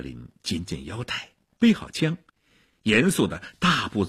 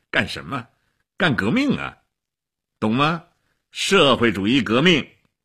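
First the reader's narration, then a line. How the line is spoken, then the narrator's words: Laughing. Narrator (Chinese): 齐比索夫笑起来了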